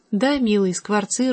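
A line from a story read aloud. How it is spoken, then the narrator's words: Timid old woman. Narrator (Russian): робко отвечала старая Като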